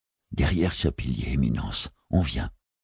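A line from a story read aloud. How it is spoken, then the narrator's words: Breathy whisper. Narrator (French): souffla l'assistant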